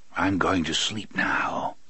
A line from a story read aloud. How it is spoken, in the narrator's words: Court whispered calmly